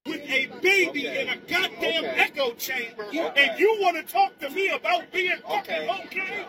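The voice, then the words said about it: Angry yelling. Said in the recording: “this man is just like yelling ... you're yelling ... Lower your voice”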